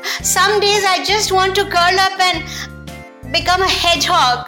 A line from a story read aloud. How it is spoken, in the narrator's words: whined the giraffe